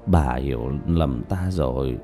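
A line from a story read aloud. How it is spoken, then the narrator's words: Tearful mutter. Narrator (Vietnamese): Diệp Bá lệ rơi đầy mặt, lẩm bẩm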